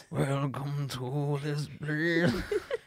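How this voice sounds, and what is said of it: Sung imitation of rock singer. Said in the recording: “you're just so good at the impression ... Creed”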